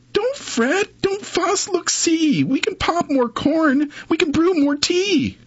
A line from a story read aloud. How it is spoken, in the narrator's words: Mouse squeaks